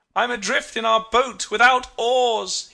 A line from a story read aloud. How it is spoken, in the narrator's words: he cried